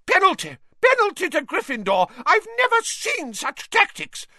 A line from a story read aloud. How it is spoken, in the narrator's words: Madame Hooch screeched